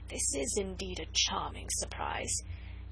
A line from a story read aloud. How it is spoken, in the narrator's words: he whispered with affected gallantry